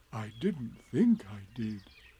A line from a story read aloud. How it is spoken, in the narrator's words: said Pooh anxiously